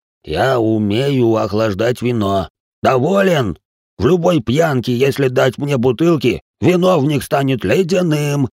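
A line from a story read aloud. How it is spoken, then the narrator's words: Deep bass bark. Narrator (Russian): рявкнул басом Салих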